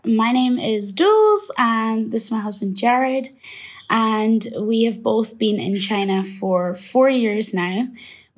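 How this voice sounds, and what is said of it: Scottish accent. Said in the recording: “I really love your accents. ... I'm from Scotland”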